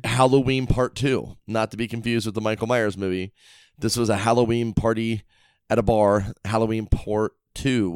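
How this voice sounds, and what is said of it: Voice sounds rough, unlike usual. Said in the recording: “why on earth does your voice sound like that? ... Oh my god, listen to you. It's well, so different in my headphones. ... My voice sounds like this because for one, I'm at the end of that cold, okay? ... I was out drinking late last night.”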